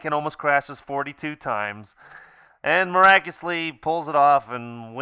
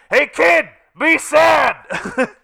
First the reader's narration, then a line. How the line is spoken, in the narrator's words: out of nowhere, it's almost like someone yelled from off camera